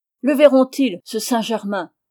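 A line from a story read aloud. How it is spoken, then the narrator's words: Exclaimed. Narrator (French): s'écria-t-il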